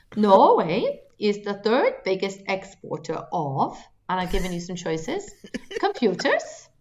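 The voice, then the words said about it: Put-on Norwegian accent. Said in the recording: “I could do it in a Norwegian accent ... Don't laugh at my accent. It's been practicing.”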